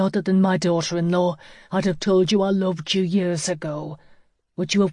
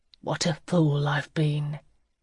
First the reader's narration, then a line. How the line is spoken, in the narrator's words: he breathed